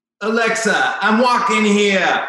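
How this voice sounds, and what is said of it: Celebrity impression, put-on accent. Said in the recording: “You want an accent. You want a, an impression? Okay. A celebrity accent.”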